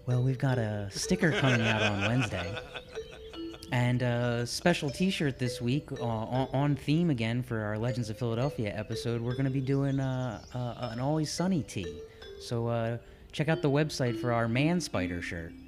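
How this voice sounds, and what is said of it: Calm public-radio announcer voice. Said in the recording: “Please use your NPR voice.”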